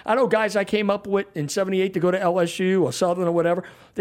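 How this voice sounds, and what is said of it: New Orleans accent. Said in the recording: “I don't lose the accent. ... I speak like I'm from New Orleans”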